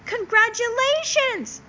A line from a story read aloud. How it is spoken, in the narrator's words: shouted Wilbur